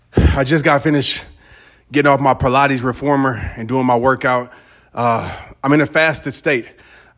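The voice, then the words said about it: Out of breath, breathy speech. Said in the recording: “I know I sound like I'm out of breath because I am.”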